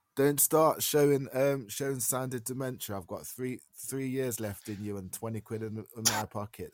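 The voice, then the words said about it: Noticeable accent. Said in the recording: “I love his accent.”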